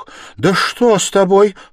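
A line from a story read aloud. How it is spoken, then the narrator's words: Mother's sudden cry. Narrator (Russian): вскрикнула мать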